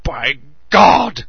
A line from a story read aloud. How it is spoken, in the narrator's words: He shouted